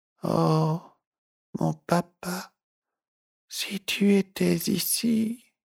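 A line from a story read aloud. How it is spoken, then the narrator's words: Breathless, trailing off. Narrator (French): le souffle lui manqua pour continuer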